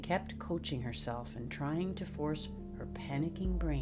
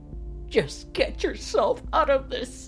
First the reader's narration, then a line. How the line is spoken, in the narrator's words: she cried